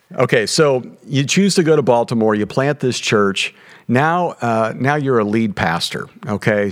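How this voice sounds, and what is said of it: Kentucky Southern drawl. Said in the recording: “the accent is sometimes charming and sometimes a little offensive to people ... I only had 9 years in Kentucky, and I can't shake the y'all and the drawl”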